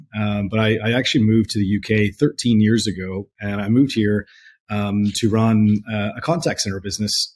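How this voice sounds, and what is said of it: Non-European accent. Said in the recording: “my accent is not European”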